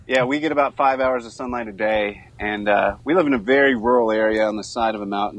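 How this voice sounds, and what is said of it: Southern bluegrass American accent. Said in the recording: “You got a cool beegrass, accent. ... I think it's become stronger since living up here.”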